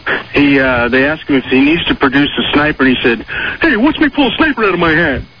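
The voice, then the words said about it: Cartoon moose character voice. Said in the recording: “Good Bullwinkle impression.”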